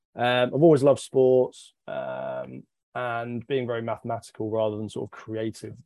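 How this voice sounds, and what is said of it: British accent. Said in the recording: “I grew up in the UK, and you can tell from the accent”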